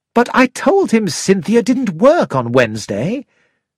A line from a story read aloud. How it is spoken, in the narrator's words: exclaimed